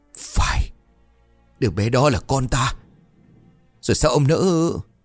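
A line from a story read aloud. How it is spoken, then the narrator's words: Dry sigh, anguished trembling voice. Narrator (Vietnamese): ông Tránh bật ra một tiếng thở dài khô khốc, giọng của ông run rẩy như là bị rạch từ bên trong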